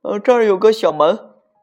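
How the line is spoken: Shout. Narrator (Chinese): 米斯特喊道

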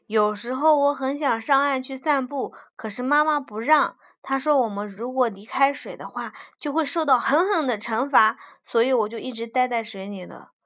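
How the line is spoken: Small fish, panting. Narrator (Chinese): 小鱼一边喘气一边说

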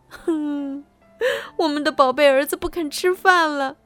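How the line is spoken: Crying, sad shouting. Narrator (Chinese): 他们哭了起来，伤心的喊道

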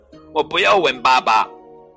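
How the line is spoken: Little bear's shout. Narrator (Chinese): 熊宝宝叫道

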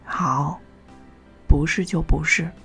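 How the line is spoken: Light, breezy. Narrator (Chinese): 他轻快的说

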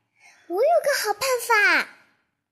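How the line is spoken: Sudden shout. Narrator (Chinese): 他突然大叫

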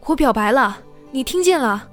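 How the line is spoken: Very loud. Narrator (Chinese): 声音那么大

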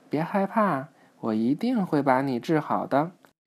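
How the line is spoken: Gentle soothing. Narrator (Chinese): 皮医生温柔地安抚着海参

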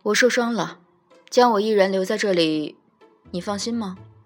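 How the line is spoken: Calm, indifferent. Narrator (Chinese): 东华，淡淡道

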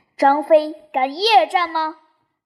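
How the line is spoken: Excited shout. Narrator (Chinese): 张飞兴起 叫道

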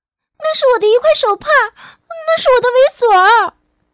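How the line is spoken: Shouting. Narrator (Chinese): 露西喊道

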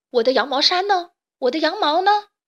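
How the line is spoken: Furious yell. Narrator (Chinese): 贝里奥气得大叫

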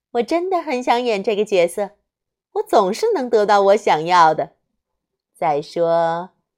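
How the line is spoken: Sweet, smiling. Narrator (Chinese): 罗拉露出甜美的笑容，对贝琳达说

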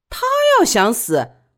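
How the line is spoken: Sneering. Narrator (Chinese): 李宝莉冷笑道

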